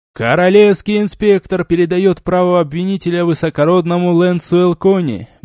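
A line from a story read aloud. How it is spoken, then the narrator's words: Loud announcement, emcee. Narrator (Russian): громко заявляет конферансье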